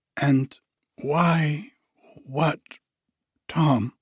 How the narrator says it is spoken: struggled desperately with the question

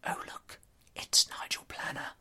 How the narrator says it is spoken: I heard myself whisper

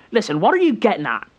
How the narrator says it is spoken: said sharply

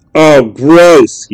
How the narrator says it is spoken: he spat, sickened at the sight of the rat

